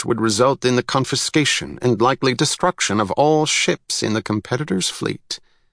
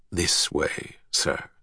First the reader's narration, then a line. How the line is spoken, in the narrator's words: said in a grave voice